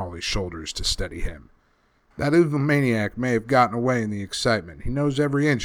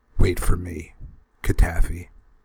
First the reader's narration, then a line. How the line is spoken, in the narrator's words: he whispered